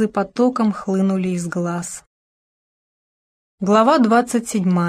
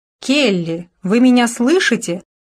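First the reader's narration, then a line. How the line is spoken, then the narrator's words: Irritated shout. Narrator (Russian): раздраженно крикнула Даяна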